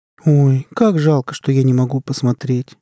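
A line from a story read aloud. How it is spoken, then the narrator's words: Sad. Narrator (Russian): грустно сказала Джейн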